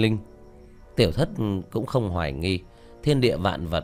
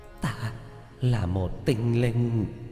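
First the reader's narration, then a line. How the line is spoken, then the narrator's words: Trembling ghostly voice. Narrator (Vietnamese): Quỷ ảnh run rẩy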